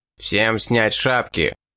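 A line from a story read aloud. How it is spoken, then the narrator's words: Menacing command. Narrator (Russian): грозно приказал бандит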